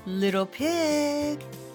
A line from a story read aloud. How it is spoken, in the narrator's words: he called sweetly